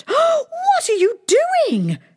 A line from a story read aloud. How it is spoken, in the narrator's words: exclaimed